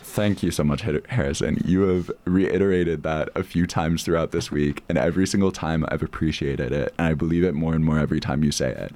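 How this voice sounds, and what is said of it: Smooth, slick accent. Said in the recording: “you have the smoothest, the slickest, the most wonderful accent I've ever heard ... What a voice you have”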